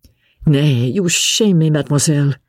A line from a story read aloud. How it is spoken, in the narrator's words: replied Sir Andrew